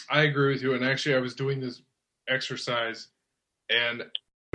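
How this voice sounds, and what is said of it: Usual voice. Nothing is said of it.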